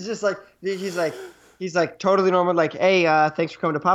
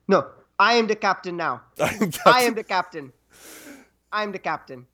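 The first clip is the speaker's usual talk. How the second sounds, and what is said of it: Put-on West African accent. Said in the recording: “that's what I imagine a West African accent is ... African accent”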